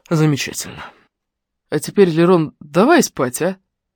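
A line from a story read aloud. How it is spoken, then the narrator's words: Sleepy mumble. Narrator (Russian): пробормотал он сонно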